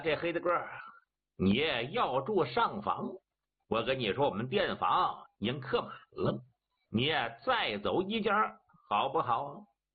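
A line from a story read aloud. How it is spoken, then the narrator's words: Grinning, cheeky. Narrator (Chinese): 嬉皮笑脸的 我说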